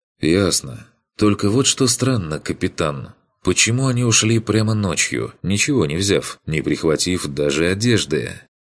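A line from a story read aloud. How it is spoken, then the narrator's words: Quiet suggestion. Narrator (Russian): предположил тихо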